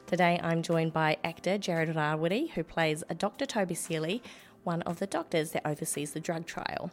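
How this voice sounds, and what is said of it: Slightly croaky, hoarse voice. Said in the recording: “I've lost my voice a little bit ... I'm still feeling a little bit croaky”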